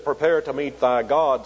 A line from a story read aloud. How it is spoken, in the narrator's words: says